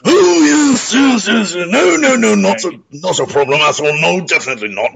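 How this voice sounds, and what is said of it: Imitates another person's voice. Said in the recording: “my impression of Boris Johnson, which yes! for all intents and purposes is actually amazing”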